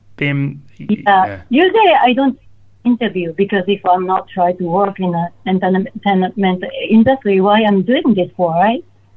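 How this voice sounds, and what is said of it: Non-native English accent. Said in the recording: “I speak English with my accent ... my accent”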